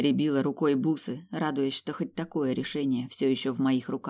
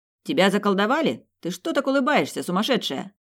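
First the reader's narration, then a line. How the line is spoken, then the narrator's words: Shouting. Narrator (Russian): крикнул Этан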